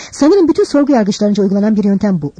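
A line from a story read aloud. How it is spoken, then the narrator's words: Plain. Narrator (Turkish): dedi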